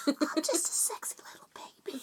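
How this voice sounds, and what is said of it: Baby voice. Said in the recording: “I love your baby voice. That's so gross.”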